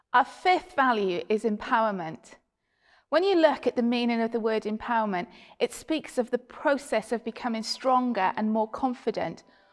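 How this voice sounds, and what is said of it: Welsh accent. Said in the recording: “originally heralds from beautiful land of Wales. You might pick that up in her accent.”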